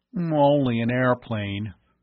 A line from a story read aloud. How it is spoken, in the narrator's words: Bud grumbled